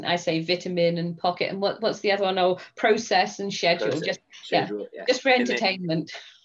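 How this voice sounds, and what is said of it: English accent. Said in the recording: “listening to her English accent ... Is it English accent or British accent? ... I am English ... with the English accent”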